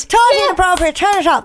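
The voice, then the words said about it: Vaguely Irish put-on accent. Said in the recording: “you've lost an accent. ... That's actually not ... accent. But it's vaguely Irish.”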